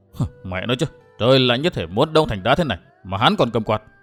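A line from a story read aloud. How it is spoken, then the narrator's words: Muttering. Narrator (Vietnamese): tiểu nhị lẩm bẩm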